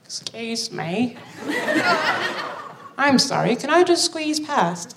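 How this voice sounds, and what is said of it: Put-on British accent. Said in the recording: “do a very good impression of a British person”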